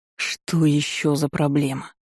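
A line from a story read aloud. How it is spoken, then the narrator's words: Growling. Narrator (Russian): Алузар зарычал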